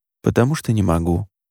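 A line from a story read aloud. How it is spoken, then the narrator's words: Quiet. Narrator (Russian): негромко сказал он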